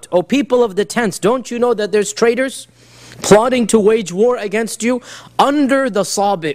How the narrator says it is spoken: a loud voice scream out

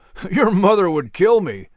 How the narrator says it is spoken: Langlu said with a chuckle

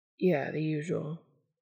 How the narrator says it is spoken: Dean said quietly

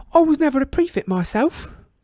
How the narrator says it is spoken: said Tonks brightly from behind Harry

